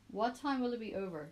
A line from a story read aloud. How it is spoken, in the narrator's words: Luke asks